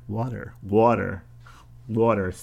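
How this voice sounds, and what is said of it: New Jersey accent, T sounds like D. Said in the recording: “Did my New Jersey accent just leak out there? ... The T sounds like a D.”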